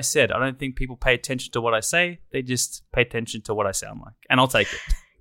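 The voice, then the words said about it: Distinctive accent, smooth voice. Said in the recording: “The accent seems to be, ... it hits it out of the park ... you also have a smooth voice”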